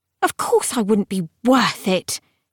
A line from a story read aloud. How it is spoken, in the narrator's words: Harrow said scornfully